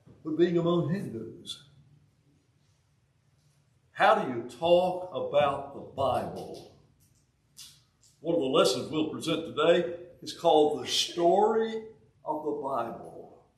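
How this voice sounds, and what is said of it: Southern US accent. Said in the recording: “I've still got this southern accent ... my southern accent”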